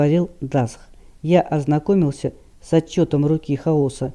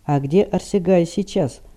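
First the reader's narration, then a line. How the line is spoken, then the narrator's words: Grim question. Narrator (Russian): мрачно спросил Рид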